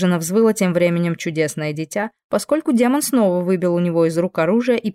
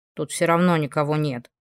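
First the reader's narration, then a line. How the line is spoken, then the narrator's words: Boy grumbling. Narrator (Russian): буркнул парнишка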